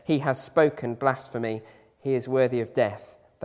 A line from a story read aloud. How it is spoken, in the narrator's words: they answered